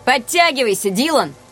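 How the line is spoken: Shouted. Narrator (Russian): закричал Рианон

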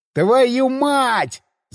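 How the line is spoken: Panicked yell. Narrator (Russian): заорал я, обнаружив, что руль завращался без всякого результата, а большую машину начало закручивать

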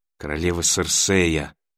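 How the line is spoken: Muffled whisper into pillow. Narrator (Russian): прошептала она в подушку

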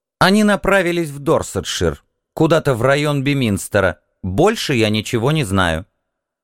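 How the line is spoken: Sharp. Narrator (Russian): она резко сказала мне

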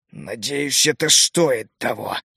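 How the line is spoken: Hissed through teeth. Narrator (Russian): прошипел сквозь зубы главный огневик

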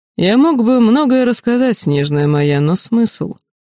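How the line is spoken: Mocking. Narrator (Russian): Араэден насмешливо произнес

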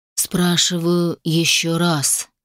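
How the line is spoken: Slow, masked man. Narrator (Russian): медленно произнес человек в маске

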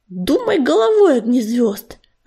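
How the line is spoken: Irritated hiss. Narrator (Russian): раздраженно прошипела Пепелица

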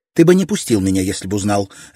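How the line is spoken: Sharp. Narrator (Russian): резко ответила Мэй-Мэй

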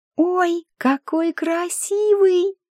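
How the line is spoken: Sing-song. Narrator (Russian): нараспев произнесла Флориана

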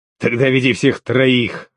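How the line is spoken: Growled. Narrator (Russian): рыкнул бригадир

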